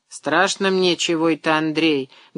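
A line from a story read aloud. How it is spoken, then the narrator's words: Muffled, wife. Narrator (Russian): глухо произнесла жена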